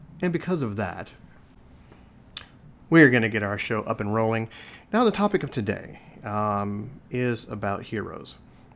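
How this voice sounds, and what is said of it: Somber, subdued voice. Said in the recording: “As you can tell, my voice is kind of somber.”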